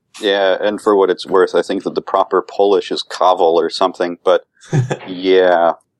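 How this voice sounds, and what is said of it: Minnesota-ish Midwestern accent. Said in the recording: “You have that kind of Minnesota-ish accent.”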